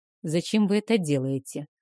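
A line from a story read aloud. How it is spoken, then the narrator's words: Muffled question. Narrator (Russian): глухо спросил дракомаг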